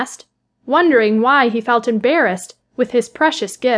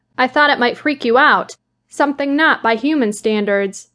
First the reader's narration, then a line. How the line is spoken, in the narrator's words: he replied